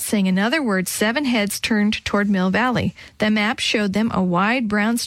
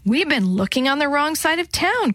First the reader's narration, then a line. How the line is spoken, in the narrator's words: Chris said excitedly